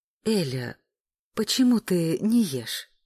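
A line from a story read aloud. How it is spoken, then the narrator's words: Honey-sweet inquiry. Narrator (Russian): Сладко-медовым тоном осведомилась Оксана Борисовна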